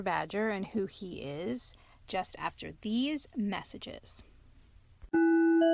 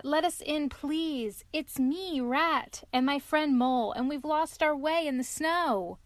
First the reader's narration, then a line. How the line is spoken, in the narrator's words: cried the rat